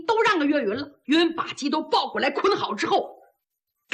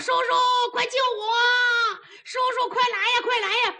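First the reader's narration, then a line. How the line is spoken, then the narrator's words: Strangled, choking scream. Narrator (Chinese): 扯着嗓子喊，可是怎么喊他觉得喊不出来，憋得慌，那脖子被这坐地炮给捏得紧紧的，上不来气儿了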